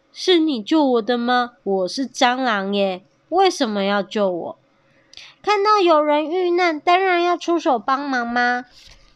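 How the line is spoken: Cheerful, giggling. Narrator (Chinese): 小蝗虫笑嘻嘻地说

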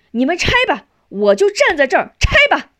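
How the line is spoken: Loud. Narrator (Chinese): 大声说

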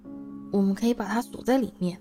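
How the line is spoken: Low voice. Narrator (Chinese): 哈利低声说

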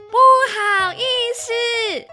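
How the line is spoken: Loud full-throated shout. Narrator (Chinese): 阿奇扯开了喉咙，大声地喊

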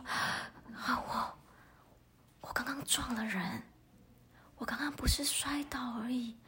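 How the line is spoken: Anxious panicked whisper. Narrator (Chinese): 老赵……他很着急，很慌张……他小小声的说

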